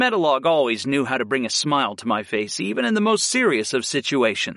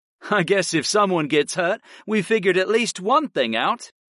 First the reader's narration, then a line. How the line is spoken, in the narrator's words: Orin smirked